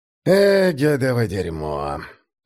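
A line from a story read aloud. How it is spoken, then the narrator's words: Mournful sigh. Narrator (Russian): скорбно вздохнул он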